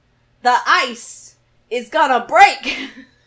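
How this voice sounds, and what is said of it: Good Christopher Walken impression. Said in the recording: “That was a really good impression.”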